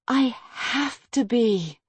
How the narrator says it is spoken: Harper sighed

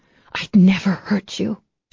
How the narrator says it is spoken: she whispered throatily

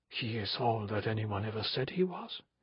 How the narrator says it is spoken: he whispered to Gregory

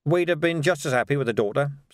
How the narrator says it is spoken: said Vimes quickly

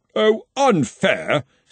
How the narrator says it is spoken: snapped Henry

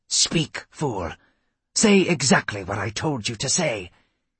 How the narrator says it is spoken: she hissed into his ear

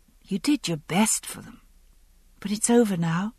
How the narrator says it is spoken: I said softly

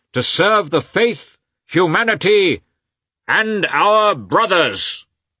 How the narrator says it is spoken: said raising his voice more and more

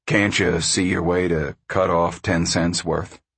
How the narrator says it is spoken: Al said snarlingly

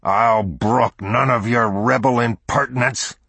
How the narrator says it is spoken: he roared in bullying tones

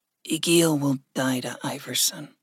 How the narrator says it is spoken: Gregory said softly

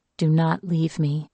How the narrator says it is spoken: she whispered to the crow

